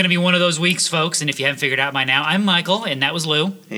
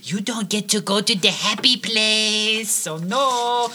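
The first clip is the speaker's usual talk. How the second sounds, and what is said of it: Bad put-on Hispanic accent. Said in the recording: “my bad Hispanic accent”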